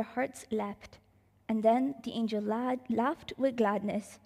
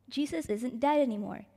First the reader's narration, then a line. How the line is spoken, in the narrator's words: he said